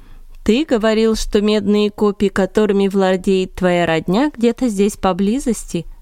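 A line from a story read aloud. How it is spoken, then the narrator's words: Plain. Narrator (Russian): спросил Саул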